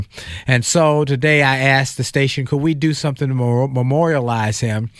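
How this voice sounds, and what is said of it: Subdued, low-energy voice. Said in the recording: “You might hear from my voice. I'm a little underwhelmed in my usual energy because I'm mourning.”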